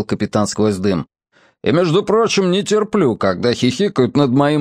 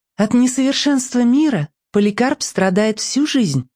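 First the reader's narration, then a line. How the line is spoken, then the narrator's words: Clear voice. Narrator (Russian): ясным голосом сообщил Бамбала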